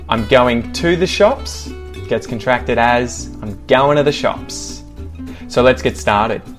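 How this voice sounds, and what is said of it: Australian accent. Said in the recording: “how to pronounce them with an Australian accent ... with an Aussie accent”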